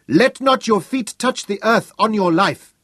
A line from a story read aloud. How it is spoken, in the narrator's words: shouted